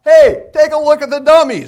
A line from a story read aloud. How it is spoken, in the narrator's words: yelled out